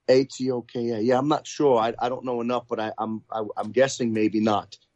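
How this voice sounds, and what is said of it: Thick New York accent. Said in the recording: “He's a New Yorker, as you may be able to detect from his accent, which is so thickly New York”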